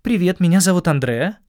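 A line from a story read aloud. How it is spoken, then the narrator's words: Cheerful young woman. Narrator (Russian): весело представилась ... девушка-рейнджер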